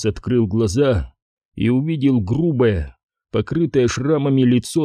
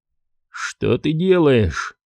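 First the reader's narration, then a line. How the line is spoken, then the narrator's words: Calm question. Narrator (Russian): спокойно спросил Карас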